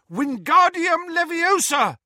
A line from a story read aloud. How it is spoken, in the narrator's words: In desperation, Harry pointed his wand at the sidecar and shouted